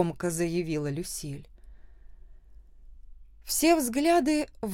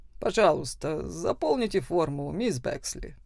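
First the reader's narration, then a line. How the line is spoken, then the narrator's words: Tired official request. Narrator (Russian): представитель администрации устало попросил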